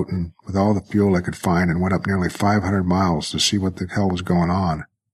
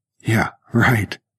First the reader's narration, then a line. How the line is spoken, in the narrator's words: Michael snorted